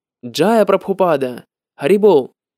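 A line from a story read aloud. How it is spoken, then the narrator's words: Exclamation. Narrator (Russian): Я воскликнул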